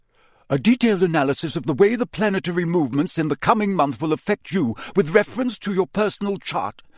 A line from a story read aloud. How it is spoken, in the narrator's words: she snapped, sounding much more like Professor McGonagall than her usual airy-fairy self